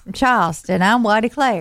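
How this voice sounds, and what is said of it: Put-on Southern accent. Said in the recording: “sounds very Southern.”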